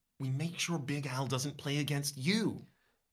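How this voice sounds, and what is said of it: Low, quiet voice. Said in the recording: “You answer in a low voice.”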